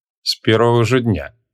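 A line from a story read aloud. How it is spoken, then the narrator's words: Wry snort. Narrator (Russian): хмыкнул маг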